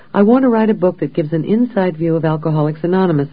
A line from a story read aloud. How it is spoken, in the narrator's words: I blurted out